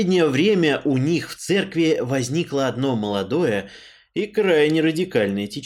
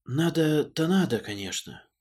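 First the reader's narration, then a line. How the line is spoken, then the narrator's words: Sighing priest. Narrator (Russian): вздохнул поп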